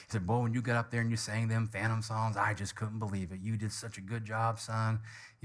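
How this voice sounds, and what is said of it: Put-on Kentucky accent. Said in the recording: “he's from Kentucky, so this is why I'm using the accent.”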